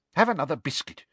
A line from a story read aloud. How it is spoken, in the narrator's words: she said irritably